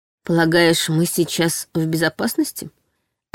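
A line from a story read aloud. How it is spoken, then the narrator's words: Forced calm, hidden fear. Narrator (Russian): Осведомилась я максимально спокойно, стараясь не выдать собственные страхи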